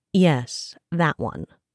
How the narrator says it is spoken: Brenora replied in a dry, impatient tone

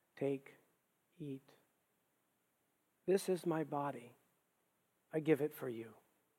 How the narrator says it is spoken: he said softly

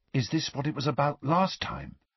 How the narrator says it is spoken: said Ron in a hushed voice

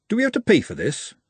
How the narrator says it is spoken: said Glenda nervously

